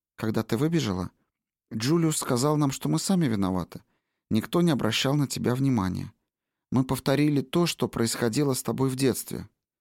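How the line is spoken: Soft, gentle. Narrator (Russian): Мягко, как всегда, когда он обращался к женщинам, Гил сказал Бонни

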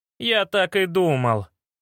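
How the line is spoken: Groaning. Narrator (Russian): простонал

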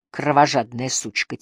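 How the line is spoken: Quiet curse. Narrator (Russian): тихо выругалась она

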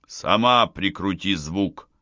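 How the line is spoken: Barking snap. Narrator (Russian): рявкнул

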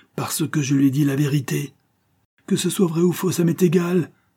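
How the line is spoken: Exclaimed. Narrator (French): s'écria-t-elle

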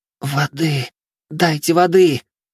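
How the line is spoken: Hoarse wheeze on waking. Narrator (Russian): Просипела она, едва распахнула глаза

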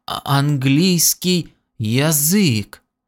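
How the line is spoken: Slow breathless excitement. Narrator (Russian): задыхаясь от волнения, медленно сказал он

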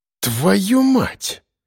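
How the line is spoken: Breathless exhale. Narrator (Russian): выдохнул Коля

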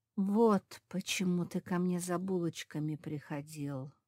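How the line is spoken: Whisper. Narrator (Russian): прошептал Марк

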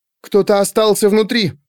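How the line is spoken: Frightened breathless exhale. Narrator (Russian): испуганно выдохнула она

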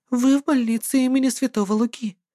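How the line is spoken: Gentle cooing. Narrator (Russian): ласковым голосом проворковала она

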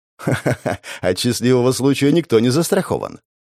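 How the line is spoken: Laughing. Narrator (Russian): рассмеялась Террия

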